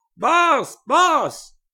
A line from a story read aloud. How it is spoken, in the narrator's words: he screamed at Grant Wickham